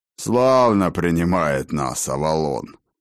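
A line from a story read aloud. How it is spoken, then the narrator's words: Grumble. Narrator (Russian): проворчал Фроди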